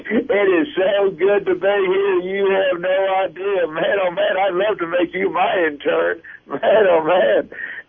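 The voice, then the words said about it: Imitates another person's voice. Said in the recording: “Was that a Bill Clinton impression?”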